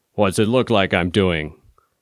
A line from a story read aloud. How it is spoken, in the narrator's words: His voice was deep and rumbly like barrels going down a ramp